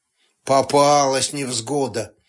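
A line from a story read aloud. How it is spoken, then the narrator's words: Skeptical snort. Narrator (Russian): Скептически хмыкнул Сташевич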